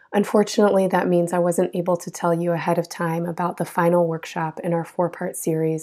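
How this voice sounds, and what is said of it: Hoarse, strained voice from illness. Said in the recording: “as you can probably hear, I got sick and lost my voice”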